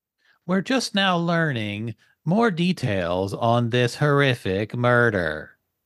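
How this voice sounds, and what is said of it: Neutral news field reporter voice. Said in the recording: “why do all the reporters, the field reporters, sound the same? ... it's kind of a neutral, no accent, same cadence ... Why do y'all all sound the same?”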